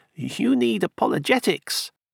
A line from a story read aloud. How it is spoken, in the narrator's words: said kindly